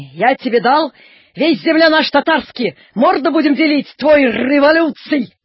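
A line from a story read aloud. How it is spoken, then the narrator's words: Guttural shout. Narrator (Russian): крикнул татарин горлом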